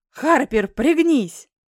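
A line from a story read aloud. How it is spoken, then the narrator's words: Yelling man. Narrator (Russian): заорал суженый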